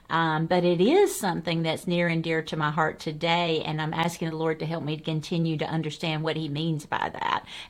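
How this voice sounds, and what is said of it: Southern American twang. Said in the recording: “my southern twang”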